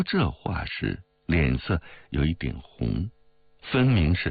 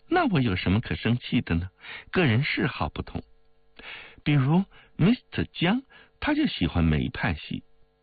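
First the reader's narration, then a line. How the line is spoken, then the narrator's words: Laughing. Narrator (Chinese): 王玉笑道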